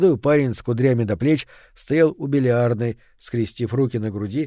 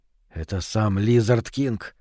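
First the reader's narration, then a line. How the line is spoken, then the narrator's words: Dry, impassive tone. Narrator (Russian): произнес он сухим, бесстрастным тоном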